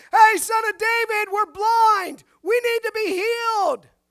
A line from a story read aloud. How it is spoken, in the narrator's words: They're not yelling out